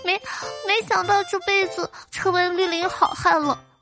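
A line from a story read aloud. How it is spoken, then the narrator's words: Drunken crying, halting speech. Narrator (Chinese): 一个哥们儿喝高了就哭开了，有一搭没一搭的往外道说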